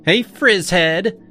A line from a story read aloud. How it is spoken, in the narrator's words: she called out loud enough for half the room to hear